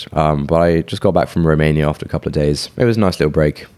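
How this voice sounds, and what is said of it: Sore, strained throaty voice. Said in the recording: “I had a really bad sore throat ... And it's gotten worse. I'm sure you can tell from my voice.”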